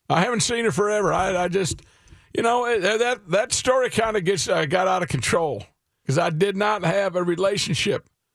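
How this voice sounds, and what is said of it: Imitates another person's voice. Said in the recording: “since I have to do impersonation each time, if uh, if one of my guys comes up in the news”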